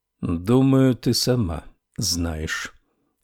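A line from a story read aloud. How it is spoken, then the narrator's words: Slow speech. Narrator (Russian): медленно проговорил Буденбаум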